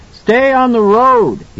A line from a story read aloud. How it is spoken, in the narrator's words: he shouted at Halloran's ear